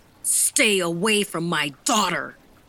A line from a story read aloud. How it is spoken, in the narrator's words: the older man yanked the student off the bench and shouted